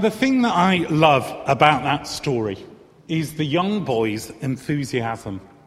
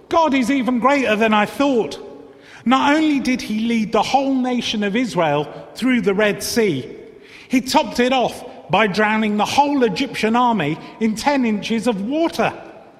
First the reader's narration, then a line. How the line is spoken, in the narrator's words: exclaimed the boy